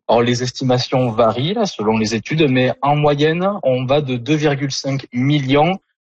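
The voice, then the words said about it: Southern French accent. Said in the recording (French): “votre accent du sud de la France”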